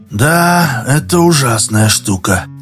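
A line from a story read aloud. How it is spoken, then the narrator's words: Sighing. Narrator (Russian): вздохнул Дауга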